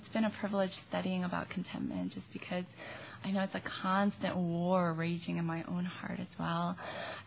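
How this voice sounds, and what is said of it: Weak, fading voice. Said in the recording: “I'm kind of getting over something, so losing my voice and... not working at full capacity”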